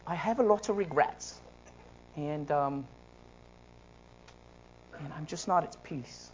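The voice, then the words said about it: Imitated elderly English lady's accent. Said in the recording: “In her English voice,”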